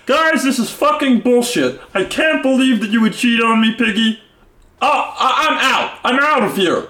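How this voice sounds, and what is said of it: Imitates Kermit the Frog voice. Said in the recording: “that is a pretty good Kermit ... The Kermit impression?”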